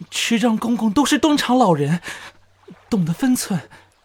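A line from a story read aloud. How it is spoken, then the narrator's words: Choked, soft voice. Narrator (Chinese): 风泉哽咽，细声说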